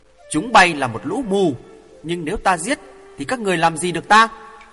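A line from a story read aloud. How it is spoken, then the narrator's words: Furious, laughing, loud. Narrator (Vietnamese): Hoàng Thượng Chí quá tức giận, không còn dằn được nữa, cười hì hì nói lớn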